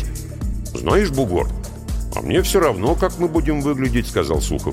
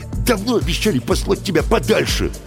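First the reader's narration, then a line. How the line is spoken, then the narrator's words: Snapping back. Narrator (Russian): огрызнулся бригадир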